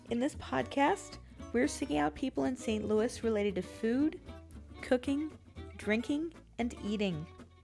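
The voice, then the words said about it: Slightly congested, sick-sounding voice. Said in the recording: “I've got a little bit of a cold today”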